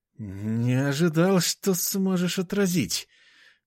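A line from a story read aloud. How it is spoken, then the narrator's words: Forced out after hesitation. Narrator (Russian): выдавил он после секундного замешательства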